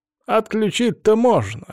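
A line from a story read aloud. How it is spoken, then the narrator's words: Smirking grunt. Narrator (Russian): хмыкнул Эксара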